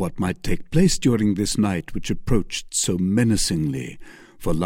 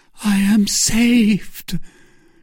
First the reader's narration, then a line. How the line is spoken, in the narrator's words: cried she